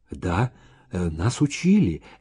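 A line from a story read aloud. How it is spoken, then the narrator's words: Whispered female reply. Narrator (Russian): также шепотом ответила она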